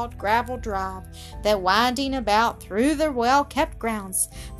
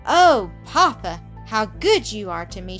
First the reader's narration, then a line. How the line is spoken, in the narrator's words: she cried, glad, grateful tears shining in her eyes